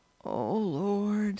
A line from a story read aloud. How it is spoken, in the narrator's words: Stacy groaned